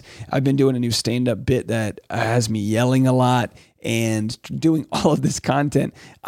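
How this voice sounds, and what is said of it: Hoarse, nearly lost voice. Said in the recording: “You can probably hear it in my voice. I've simply lost my voice.”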